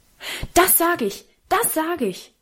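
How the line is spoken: Very loud shout. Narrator (German): rief Karl so laut

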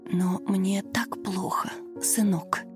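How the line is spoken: Pained elderly whisper. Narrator (Russian): шептала пожилая женщина, корчась от боли

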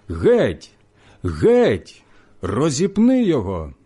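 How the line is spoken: Crowd shouting. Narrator (Ukrainian): Ті ж закричали

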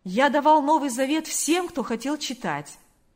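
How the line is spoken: Clear ringing voice. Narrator (Russian): произнес он чистым звонким голосом

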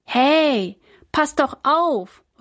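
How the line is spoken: Calling after someone. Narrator (German): ruft Jonas ihr hinterher

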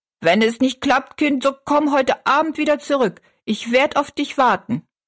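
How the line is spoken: Calling after someone. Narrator (German): rief sie noch hinterher

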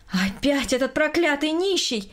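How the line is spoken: Loud indignant exclamation. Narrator (Russian): громко воскликнула Берта Петровна, увидев перед собой мужчину

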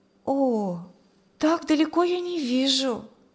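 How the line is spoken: Sigh. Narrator (Russian): вздохнула она

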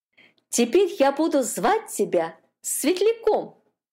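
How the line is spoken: Cheerful singing. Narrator (Russian): Катюшка весело запела

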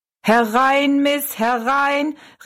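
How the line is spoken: Called out. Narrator (German): rief er Rosalie zu

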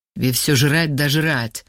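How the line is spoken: Angry grumble. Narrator (Russian): зло буркнул Вова

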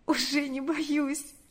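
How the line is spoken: Sobbing, smiling reply. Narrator (Russian): ответила она, всхлипнув и улыбнувшись

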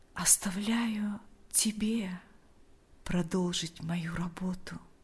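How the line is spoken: Quiet. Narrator (Russian): тихо произнес он

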